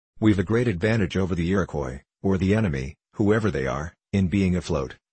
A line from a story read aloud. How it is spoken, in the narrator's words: he said